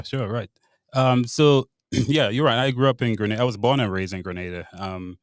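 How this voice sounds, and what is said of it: Slight Grenadian accent. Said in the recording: “you've got a bit of an accent”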